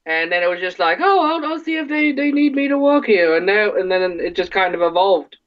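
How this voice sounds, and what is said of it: Michigan regional accent. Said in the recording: “as you can tell by my my my dialect, uh, I'm originally from Ortonville, Michigan. ... That that's how that's how we sound.”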